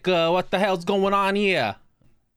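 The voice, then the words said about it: Thick Brooklyn accent. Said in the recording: “my mom actually does have a fairly thick sort of Brooklyn accent at times ... she'll talk like this and she'll get on the thick”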